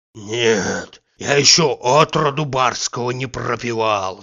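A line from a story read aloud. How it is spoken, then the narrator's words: Hoarse wheeze. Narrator (Russian): захрипел Захар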